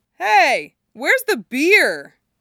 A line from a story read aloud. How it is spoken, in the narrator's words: Dick shouts from the table